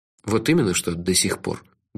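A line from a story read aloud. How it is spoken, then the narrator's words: Gruff mutter. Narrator (Russian): буркнул я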